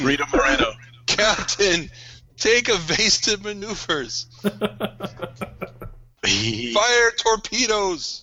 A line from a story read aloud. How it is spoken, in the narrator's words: he's very focused on his wounds, and he's also yelling